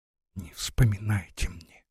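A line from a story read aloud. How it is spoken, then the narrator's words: Muffled whisper. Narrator (Russian): Лариса, закрыв ладонями свое пылающее лицо, прошептала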